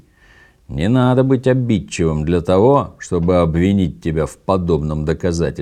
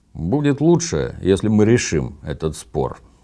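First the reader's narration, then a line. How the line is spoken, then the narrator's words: Plain. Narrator (Russian): сказал Токи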